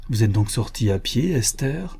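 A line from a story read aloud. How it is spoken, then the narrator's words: Plain. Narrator (French): lui dit-il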